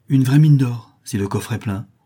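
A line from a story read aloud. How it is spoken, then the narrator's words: Exclaimed. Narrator (French): s'écria Joey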